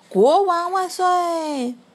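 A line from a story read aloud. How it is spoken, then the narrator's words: Shouting. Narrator (Chinese): 艾利奥特……大喊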